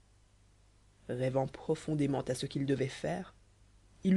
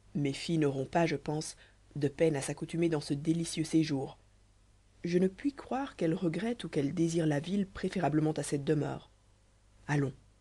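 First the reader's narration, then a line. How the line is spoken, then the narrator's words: Joyful exclamation. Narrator (French): s'écria-t-il avec un transport de joie peu commun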